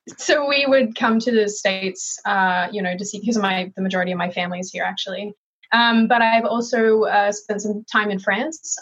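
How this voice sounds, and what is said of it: Hybrid Australian-American accent. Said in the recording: “I was born and raised in Melbourne, Australia. My mom is American, which is why I have this hybrid jacked accent.”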